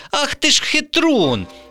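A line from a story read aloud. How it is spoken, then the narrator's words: Indignant exclamation. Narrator (Ukrainian): обурено вигукнула Вікуся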